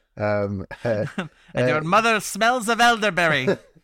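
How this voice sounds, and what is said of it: Outrageous put-on accent. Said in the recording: “my outrageous accent”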